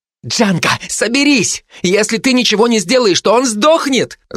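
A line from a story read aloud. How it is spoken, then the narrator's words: Yelled at her. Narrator (Russian): Заорал на нее Митчи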